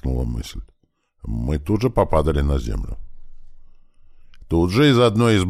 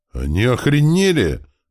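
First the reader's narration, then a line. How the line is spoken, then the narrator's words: Wood spirit yelling. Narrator (Russian): заорал лежащий неподалеку от меня леший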